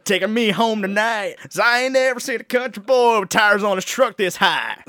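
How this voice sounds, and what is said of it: Put-on country accent. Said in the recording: “let me read them to you without a country accent”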